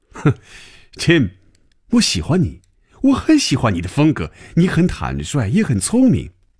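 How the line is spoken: Smiling after laughter. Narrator (Chinese): 等他停住了笑声，嘴角仍然带着笑容说

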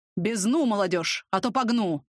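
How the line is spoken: Gruff bark. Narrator (Russian): рявкнул усач

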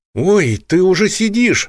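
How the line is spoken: Exclaimed. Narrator (Russian): воскликнула Наталка

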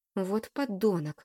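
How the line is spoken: Angry spitting words. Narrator (Russian): злобно выплевывает Денис

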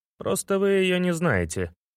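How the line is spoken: Exterminator sighing. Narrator (Russian): вздохнул морильщик

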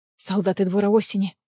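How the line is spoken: Whispered. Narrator (Russian): прошептала Неста

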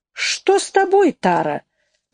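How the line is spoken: Exclaiming. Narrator (Russian): воскликнула Нэнси

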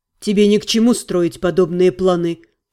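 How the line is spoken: Calm remark. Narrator (Russian): спокойно заметил маг

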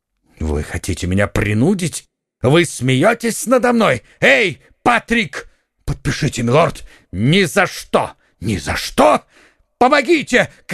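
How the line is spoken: Duke shouting. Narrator (Russian): крикнул герцог

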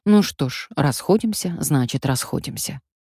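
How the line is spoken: Hesitant mumble. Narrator (Russian): замялся и пробормотал

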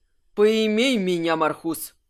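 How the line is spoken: Satisfied guffaw. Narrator (Russian): Кирсан довольно захохотал

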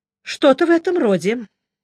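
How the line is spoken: Calm agreement. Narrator (Russian): спокойно согласился Джуфин

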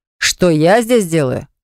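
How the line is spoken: Roared. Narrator (Russian): взревел он

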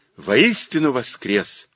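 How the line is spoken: Cheerful Easter greeting. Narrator (Russian): весело христосовался

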